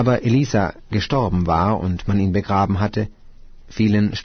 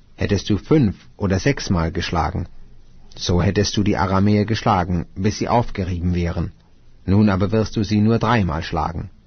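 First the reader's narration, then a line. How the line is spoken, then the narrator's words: Angry. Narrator (German): Da wurde der Mann Gottes zornig auf ihn und sprach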